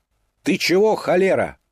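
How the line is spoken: Shouted at someone. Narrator (Russian): крикнула на нее Фекла

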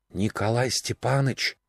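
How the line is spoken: Whisper. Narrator (Russian): шепот

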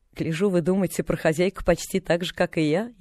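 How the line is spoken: Snide, mocking tone. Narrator (Russian): ехидно проговорила она

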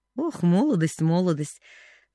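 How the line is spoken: Sighed. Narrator (Russian): вздохнул Джон Пентон

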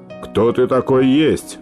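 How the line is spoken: Menacing question. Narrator (Russian): грозно спрашивает Хоменко

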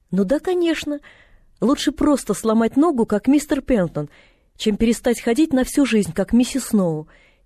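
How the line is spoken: Cheerful girl. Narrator (Russian): весело проговорила девочка

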